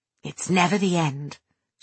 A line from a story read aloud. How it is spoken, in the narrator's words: she said softly